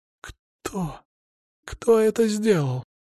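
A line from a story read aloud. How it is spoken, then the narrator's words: Hoarse girl. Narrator (Russian): просипела девушка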